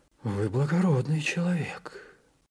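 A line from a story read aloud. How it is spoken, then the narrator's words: Sighing. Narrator (Russian): вздохнул нотариус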